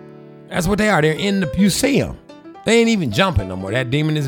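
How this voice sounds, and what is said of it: Usual voice. Nothing is said of it.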